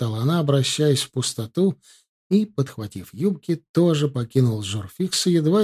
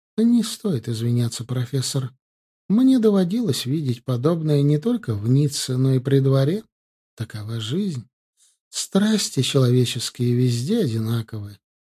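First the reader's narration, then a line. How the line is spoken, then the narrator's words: Calm, coldly smiling. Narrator (Russian): княгиня холодно улыбнулась и спокойно сказала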